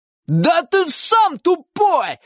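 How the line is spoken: Boy yelling. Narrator (Russian): заорал мальчик

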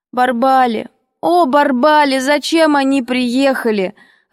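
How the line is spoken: Muffled sobbing. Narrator (Russian): рыдала я, зарывая голову в грязный передник

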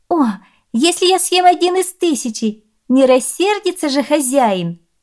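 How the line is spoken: Laughing young woman. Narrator (Russian): рассмеялась красавица

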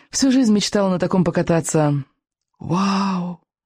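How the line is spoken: Admiring breathless exclamation. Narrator (Russian): Восхищенно выдохнул Икинг

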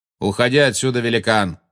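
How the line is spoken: Shout. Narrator (Russian): крикнул Магориан

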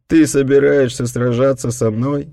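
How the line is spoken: Mocking laughter. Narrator (Russian): издевательски рассмеялся Танго

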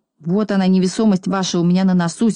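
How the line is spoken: Angry reply. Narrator (Russian): сердито ответил Пончик

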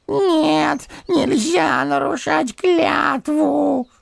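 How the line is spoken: Whimpering voice. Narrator (Russian): хныкал первый голос

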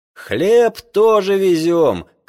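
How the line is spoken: Shouted from afar. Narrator (Russian): кричал он нам с подводы

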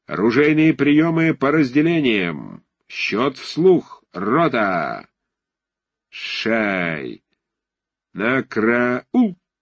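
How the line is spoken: Chanted shout. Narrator (Russian): он закричал нараспев

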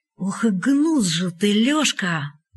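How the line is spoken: Slow quiet heartfelt. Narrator (Russian): Медленно, негромко, от всего сердца сказал Капка

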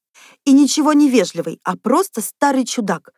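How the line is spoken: Exclaiming. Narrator (Russian): воскликнула Люся

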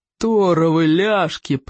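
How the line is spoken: Growling. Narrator (Russian): прорычал Плевака

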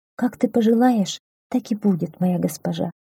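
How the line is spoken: Quiet. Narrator (Russian): тихо ответила пастушка

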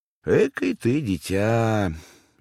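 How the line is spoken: Quiet, smiling. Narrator (Russian): Александра Ивановна беспрестанно улыбалась и, наконец, тихо промолвила

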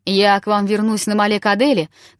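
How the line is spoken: Farewell shout. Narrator (Russian): крикнул он им на прощание

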